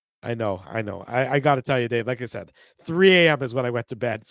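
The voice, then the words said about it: Worn-out, failing voice. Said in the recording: “My voice is going on me.”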